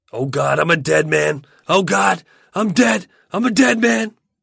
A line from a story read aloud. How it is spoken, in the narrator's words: Wayne is screaming out